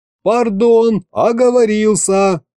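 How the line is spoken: Yelling again. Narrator (Russian): снова заорал я

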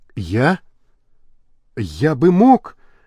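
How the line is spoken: Barely forced out. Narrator (Russian): еле выдавил Лабрюер

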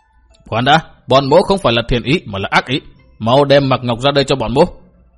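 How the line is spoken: Shouted order. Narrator (Vietnamese): Hữu hộ pháp liền quát bảo

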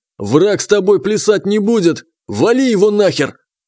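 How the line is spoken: Triumphant yell. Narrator (Russian): княжич ... победно заорал

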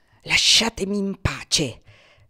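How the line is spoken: Muttered through teeth. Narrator (Italian): ripeté tra i denti

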